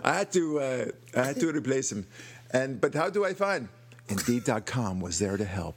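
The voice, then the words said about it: Put-on Persian accent. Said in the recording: “So now suddenly the Persian accent comes in. ... that's a perfect accent.”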